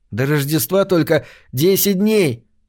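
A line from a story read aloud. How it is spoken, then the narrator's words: Happy boy's voice. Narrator (Russian): радостно сообщил один мальчик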